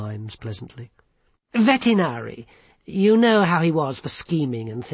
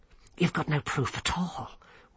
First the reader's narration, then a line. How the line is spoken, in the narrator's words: whispered Once